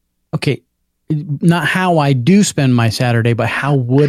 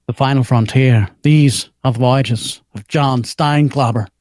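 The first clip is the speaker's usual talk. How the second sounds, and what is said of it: William Shatner impression. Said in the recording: “my William Shatner impression ... It's good. It's good. ... You nailed it.”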